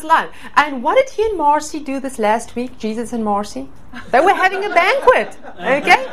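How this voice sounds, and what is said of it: South African accent. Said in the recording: “I'm from South Africa originally ... I'm having this accent”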